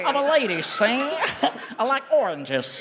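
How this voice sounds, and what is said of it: 1920s Chicago gangster-style accent. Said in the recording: “I've heard Chicago and police force... like whenever that accent is from, which I think is the 1920s, like the roaring 20s”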